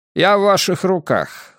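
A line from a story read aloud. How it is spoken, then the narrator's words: Cold reply. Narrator (Russian): холодно ответил поверенный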